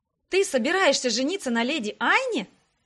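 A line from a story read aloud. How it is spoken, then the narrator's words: Exclamation. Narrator (Russian): воскликнула я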